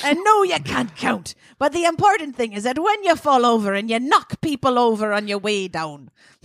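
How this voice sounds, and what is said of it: Put-on regal queen accent. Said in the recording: “this accent's not very good. ... Oh, it's a great queen. ... As the queen of the micronation of feminist piratopia, you can have whatever accent you like.”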